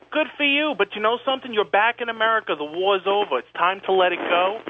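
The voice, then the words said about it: New York accent. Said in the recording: “You got a New York accent.”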